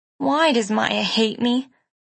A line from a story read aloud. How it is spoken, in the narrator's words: she asked sadly